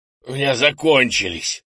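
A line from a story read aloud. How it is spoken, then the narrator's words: Strained, forced out. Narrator (Russian): выдавил из себя Крис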